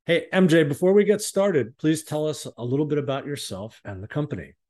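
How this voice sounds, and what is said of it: Polished, broadcast-quality speaking voice. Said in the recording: “You have a great podcast voice.”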